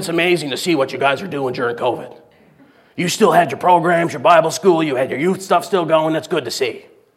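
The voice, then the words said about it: Impression of a visiting preacher. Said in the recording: “That was a pretty good impression, if I do say so myself”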